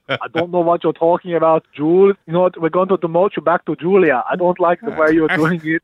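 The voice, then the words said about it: Impersonation accent drifting toward French. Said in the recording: “Your accent is sounding more and more French than I thought.”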